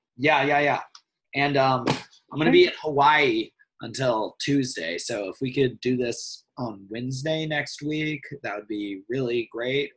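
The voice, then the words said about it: Hoarse, strained voice. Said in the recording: “I'm losing my voice right now. I probably sound terrible.”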